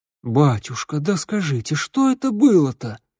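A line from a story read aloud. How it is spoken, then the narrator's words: Woman pleading. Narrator (Russian): взмолилась какая-то лохматая женщина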